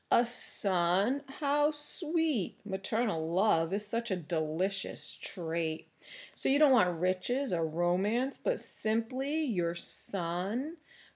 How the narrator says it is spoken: he said the word, hissing it, sneering it

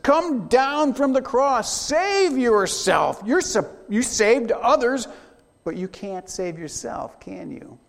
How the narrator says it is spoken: They shout to Jesus

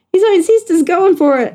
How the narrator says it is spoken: shouted Tiger

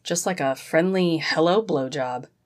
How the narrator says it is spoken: Zack chuckled tiredly

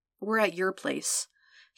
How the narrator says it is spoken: he mumbled bluntly

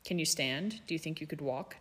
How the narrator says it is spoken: Draco asked

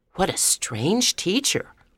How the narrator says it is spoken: I whispered to Barbara

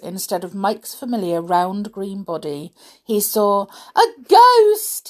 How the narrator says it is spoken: he shrieked

